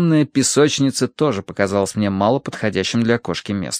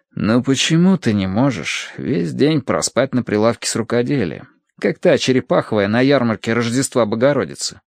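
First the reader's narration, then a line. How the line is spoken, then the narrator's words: Sighing. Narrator (Russian): вздохнул я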